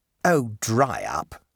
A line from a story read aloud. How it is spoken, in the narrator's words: said Bertie crossly